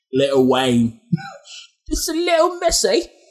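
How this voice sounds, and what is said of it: Bad put-on British accent. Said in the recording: “the English accent? ... The word little makes it sound British. ... Terrible accent.”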